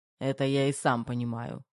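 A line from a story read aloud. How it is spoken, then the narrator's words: Snorting. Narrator (Russian): хмыкнул Терех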